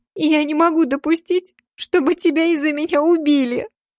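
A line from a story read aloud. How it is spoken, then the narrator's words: Sobbing. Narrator (Russian): всхлипываю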